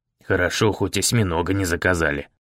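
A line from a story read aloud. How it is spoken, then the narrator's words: Muttered under breath. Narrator (Russian): проворчал он себе под нос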